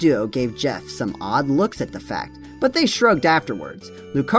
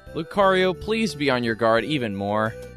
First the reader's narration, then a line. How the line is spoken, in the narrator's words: Chris said